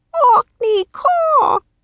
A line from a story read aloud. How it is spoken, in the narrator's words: Jack croaked